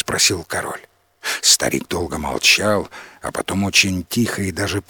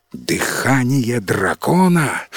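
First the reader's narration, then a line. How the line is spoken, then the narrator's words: Horrified exclamation. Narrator (Russian): в ужасе воскликнул главный советник короля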